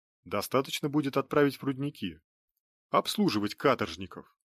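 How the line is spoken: Calm remark. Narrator (Russian): спокойно заметил Кирстен

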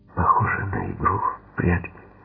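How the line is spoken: Trembling whisper. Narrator (Russian): прошептала она дрожащим голосом

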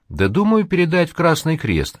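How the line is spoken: Calm, hiding embarrassment. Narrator (Russian): говорю я также спокойно, хотя меня охватывает смущение

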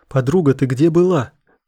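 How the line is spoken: Shouted. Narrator (Russian): крикнула она

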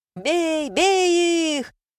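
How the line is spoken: Gleeful excited shout. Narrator (Russian): выкрикнул Жмых, радостно оскалившись и возбужденно

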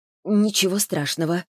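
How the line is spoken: Forced, unnatural voice. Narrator (Russian): выдавила из себя Саша, горячо надеясь, что неестественный голос не выдает обуревавших ее чувств

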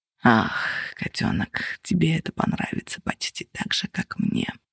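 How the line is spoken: Purring. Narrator (Russian): промурлыкал он

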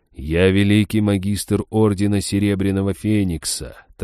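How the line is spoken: Ghost's solemn announcement. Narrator (Russian): торжественно объявил призрак

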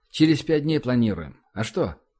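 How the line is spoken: Snorting, casual. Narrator (Russian): Платон хмыкнул и сказал

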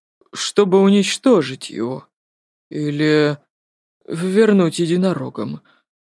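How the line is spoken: Trembling voice. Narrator (Russian): Дрожащим голосом ответил профессор Каучук

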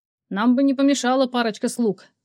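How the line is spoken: Calling after. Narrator (Russian): крикнул я ей вслед

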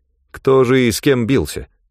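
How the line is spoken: Grim smirk. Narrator (Russian): Ганилон мрачно усмехнулся

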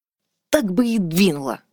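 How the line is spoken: Through gritted teeth. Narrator (Russian): процедила Бертиль

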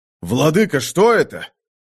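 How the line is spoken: Exclaimed. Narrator (Russian): воскликнул Рорк

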